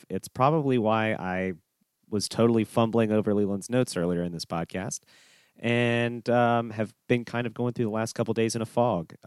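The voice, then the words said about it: Congested voice from a cold. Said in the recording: “my voice sounds a little different. I've got a cold,”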